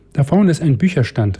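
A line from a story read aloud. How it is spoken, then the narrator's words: Mother calling. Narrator (German): rief die Mutter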